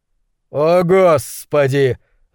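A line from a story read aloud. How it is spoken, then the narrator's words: Yelling, facing away. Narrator (Russian): завопил, по-прежнему стоя к нам спиной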